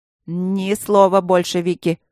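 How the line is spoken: Irritated, through clenched teeth. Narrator (Russian): раздраженно процедил лорд Максимилиан

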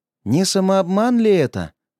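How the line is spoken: Sighing. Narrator (Russian): вздохнул Павел

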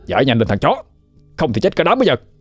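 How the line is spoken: Shouted. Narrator (Vietnamese): Thằng Hưng hét lên

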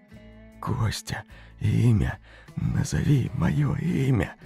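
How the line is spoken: Barely audible whisper. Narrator (Russian): Фамильяр шепнул еле слышно

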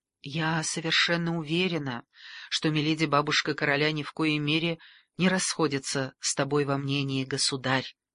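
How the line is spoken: Gentle interjection. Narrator (Russian): мягко вступилась Каталина

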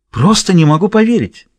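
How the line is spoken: Exclamation. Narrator (Russian): воскликнула Линда

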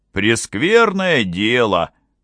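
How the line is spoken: Grumbling guard. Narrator (Russian): проворчал стороживший

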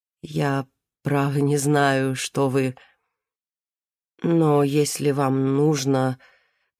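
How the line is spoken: Uncertain. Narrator (Russian): Нонна Семеновна сказала неуверенно

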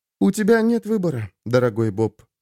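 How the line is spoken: Almost tender. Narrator (Russian): сказала она почти нежно

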